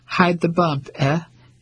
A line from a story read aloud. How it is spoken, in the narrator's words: she chuckled